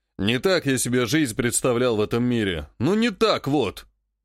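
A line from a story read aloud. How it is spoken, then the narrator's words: Snorting with laughter. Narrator (Russian): едва ли не хрюкал от хохота Клен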